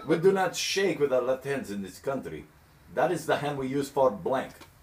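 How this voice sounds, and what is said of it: Put-on foreign accent. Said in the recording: “that accent”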